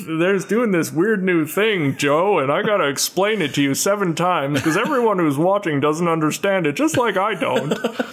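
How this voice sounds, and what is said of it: Mock hockey announcer voice. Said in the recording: “That's your announcer voice, eh? ... Hi, I announce hockey.”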